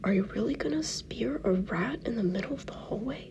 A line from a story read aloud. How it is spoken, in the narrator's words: Will whispers out of the corner of his mouth